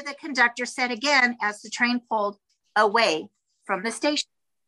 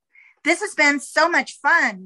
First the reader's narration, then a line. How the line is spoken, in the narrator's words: Madison Moy exclaimed